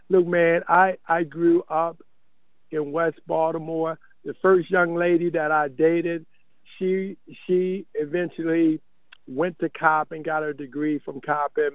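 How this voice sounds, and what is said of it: Baltimore accent. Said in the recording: “you're from Baltimore, right? I got the accent.”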